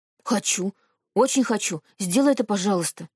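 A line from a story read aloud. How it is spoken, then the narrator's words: Pleading. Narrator (Russian): взмолился Сашка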